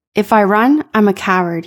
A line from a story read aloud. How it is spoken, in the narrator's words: he said